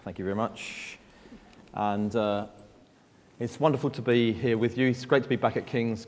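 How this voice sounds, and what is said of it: Southeast London accent. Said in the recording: “from Southeast London. You can tell that by my accent.”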